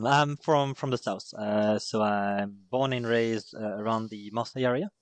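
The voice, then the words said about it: French-accented English. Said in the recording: “your your French ... sometimes they won't understand the accent”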